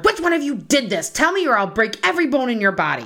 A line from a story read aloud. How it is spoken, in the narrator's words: Kathy angrily hollered